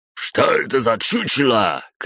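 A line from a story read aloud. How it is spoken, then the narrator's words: Shouted. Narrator (Russian): крикнул кто-то из врагов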